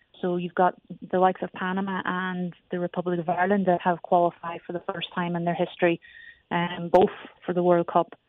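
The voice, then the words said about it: Slight Irish accent. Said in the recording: “you can tell I have a bit of an accent. I come originally from Ireland.”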